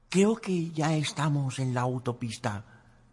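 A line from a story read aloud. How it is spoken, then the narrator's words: Whispered. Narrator (Spanish): susurró Sophie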